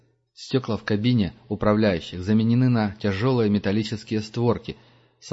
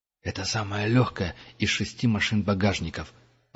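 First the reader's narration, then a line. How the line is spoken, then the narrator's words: Whisper. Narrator (Russian): прошептал он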